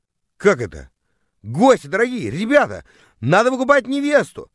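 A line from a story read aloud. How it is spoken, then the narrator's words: Yelling to guests. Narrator (Russian): завопил я, обращаясь к гостям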